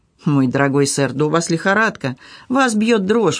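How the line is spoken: Exclaiming. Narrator (Russian): воскликнул мистер Дэвис

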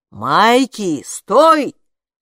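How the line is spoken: Dad shouting. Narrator (Russian): крикнул папа

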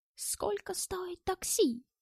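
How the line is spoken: Weak voice. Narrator (Russian): слабым голосом спросил немец

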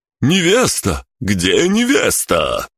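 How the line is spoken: Sudden yell. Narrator (Russian): вдруг завопил

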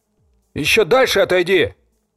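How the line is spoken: Louder stubborn shouting. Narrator (Russian): Кричал громче, не желая меня слышать и слушать

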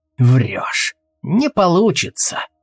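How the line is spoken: Muttered. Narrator (Russian): пробормотал Алвис

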